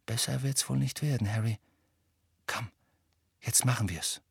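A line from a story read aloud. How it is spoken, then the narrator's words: Quiet. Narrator (German): sagte Hermine leise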